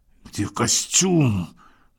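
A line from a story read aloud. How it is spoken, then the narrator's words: Hiss. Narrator (Russian): прошипел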